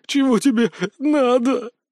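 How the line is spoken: Sobbing, breathless. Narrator (Russian): всхлипывая, выдохнул Виктор

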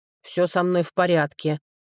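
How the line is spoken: Grumbling. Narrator (Russian): пробурчал он

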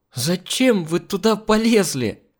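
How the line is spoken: Strained, forced out. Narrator (Russian): Только и смогла выдавить из себя таможница

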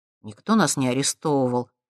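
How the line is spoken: Gruff mutter. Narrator (Russian): буркнул Максим

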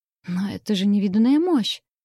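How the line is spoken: Stunned exclamation. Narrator (Russian): потрясенно воскликнула я

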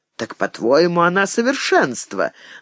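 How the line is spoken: Mocking older woman's question. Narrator (Russian): насмешливо спросила генеральша

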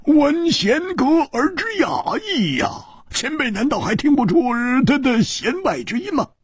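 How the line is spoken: Smiling. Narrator (Chinese): 戴独行微笑着

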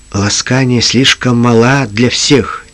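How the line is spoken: Quiet. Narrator (Russian): тихо ответил Джим

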